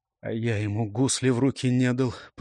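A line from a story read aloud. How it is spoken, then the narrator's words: Mumbling. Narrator (Russian): пробормотал Светил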